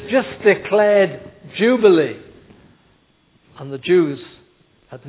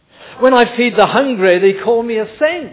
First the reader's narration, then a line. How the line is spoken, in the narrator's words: he said